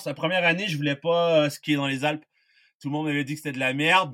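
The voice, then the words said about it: Non-local French accent. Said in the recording (French): “T'as un accent qui te, qui trahit un peu. On sent que tu n'es pas originaire complètement du terroir hein, ou du sud-ouest.”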